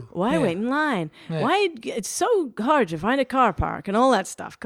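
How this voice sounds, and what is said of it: Bad put-on Canadian or Irish accent. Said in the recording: “Is that a Canadian accent? ... Yeah, it was really bad. ... or Irish.”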